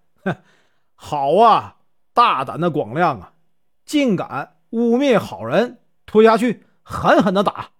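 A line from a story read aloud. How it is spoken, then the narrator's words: Exasperated yet amused. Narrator (Chinese): 老方丈又好气又好笑，说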